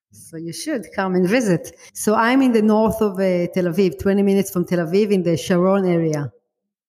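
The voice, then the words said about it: Israeli accent. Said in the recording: “I love your accent... I'm from Israel. You can hear by my accent”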